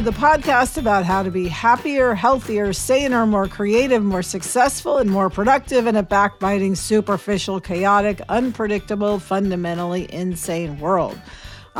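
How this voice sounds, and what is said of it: Froggy, congested voice. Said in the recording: “I currently have a cold, so excuse any frogginess in my voice ... you sound terrible.”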